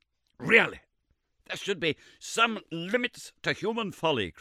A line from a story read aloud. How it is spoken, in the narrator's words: cried Summerlee in a positive fury